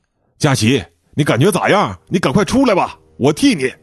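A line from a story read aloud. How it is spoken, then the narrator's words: Loud question. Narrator (Chinese): 邓龙斌大声问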